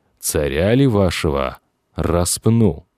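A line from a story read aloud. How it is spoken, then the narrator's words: Loud question for all. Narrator (Russian): Громким голосом, так, чтобы его было слышно всем, Пилат спросил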